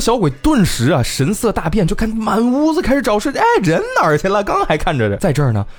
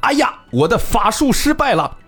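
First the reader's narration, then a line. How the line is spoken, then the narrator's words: Loud cry. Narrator (Chinese): 所谓的这个复活之后的李通判大喊一声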